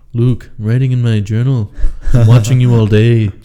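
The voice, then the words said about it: Imitates another person's voice. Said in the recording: “That wasn't a bad impression.”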